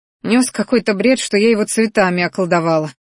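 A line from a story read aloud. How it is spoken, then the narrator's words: Angry snort. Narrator (Russian): злобно фыркнула она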